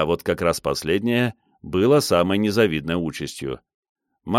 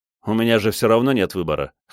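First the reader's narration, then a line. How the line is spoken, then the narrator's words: Wry snort. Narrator (Russian): хмыкнул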